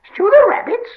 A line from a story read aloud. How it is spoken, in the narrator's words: squealed Gollum in dismay